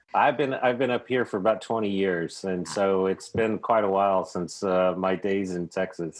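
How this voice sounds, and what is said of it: New York accent. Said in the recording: “there's zero West Texas in that accent. That's pure New York.”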